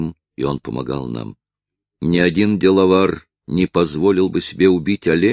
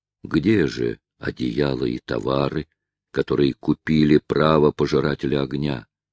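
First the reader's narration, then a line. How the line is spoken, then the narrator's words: Less impassive voice. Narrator (Russian): заговорил он уже не таким бесстрастным голосом, как прежде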